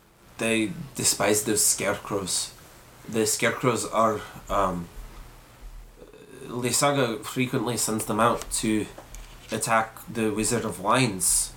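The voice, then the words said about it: Put-on Scottish accent. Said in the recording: “hence the accent... I think this is my best Scottish accent that I've done so far... done very well”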